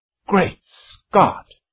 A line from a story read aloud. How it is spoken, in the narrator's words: he exclaimed